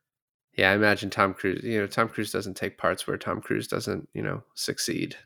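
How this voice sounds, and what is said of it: Usual voice. Nothing is said of it.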